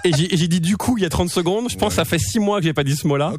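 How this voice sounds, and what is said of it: Hybrid French and Québécois accent. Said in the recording (French): “là je vous parle j'ai un accent français pour vous ... Mais pour les Français j'ai plus un accent français là ... j'ai un accent mi-français ... j'ai un accent entre les deux ... Je suis hybride.”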